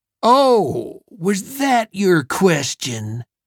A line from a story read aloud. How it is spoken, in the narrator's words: Elvid sneered openly